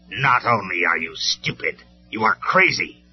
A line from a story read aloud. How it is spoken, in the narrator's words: Megatron sneered